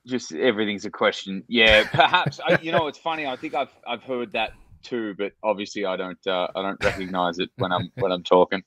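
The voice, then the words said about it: Australian accent, rising intonation. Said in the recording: “the Australian's accent is there, obviously ... my Aussie accent ... the Australian accent where it kind of goes up at the end of a sentence ... Aussies apparently do it just with every sentence”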